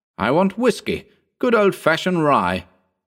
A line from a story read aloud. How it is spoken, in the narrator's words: exclaimed Trevor enthusiastically